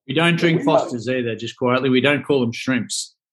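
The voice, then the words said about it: Australian accent. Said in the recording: “a good Aussie accent”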